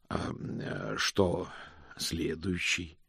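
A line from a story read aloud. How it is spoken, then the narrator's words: Husky inquiry. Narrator (Russian): хрипловато поинтересовался Мокриц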